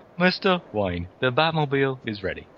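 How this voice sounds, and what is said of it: Halting British impression, pauses between words. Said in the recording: “my Michael Caine impression ... You've got to pause after every word you say ... like a Steve Coogan, Michael Caine impression ... You sound like Stephen Hawking. British version of Stephen Hawking.”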